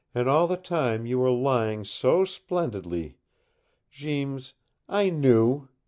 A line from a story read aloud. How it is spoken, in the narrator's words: she cried